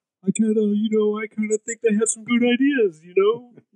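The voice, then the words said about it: Imitates the character Rom's voice. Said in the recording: “Your Rom is spot on... That's kind of spooky... We have a go-to Rom impersonation... that was really good.”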